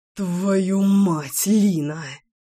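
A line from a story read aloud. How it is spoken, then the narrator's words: Beastly growl. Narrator (Russian): прорычал зверь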